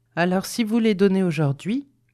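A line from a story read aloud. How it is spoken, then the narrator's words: Plain. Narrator (French): dit Elizabeth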